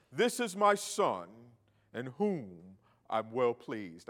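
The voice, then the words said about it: Attempted deep booming voice. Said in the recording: “I don't think my voice was deep enough”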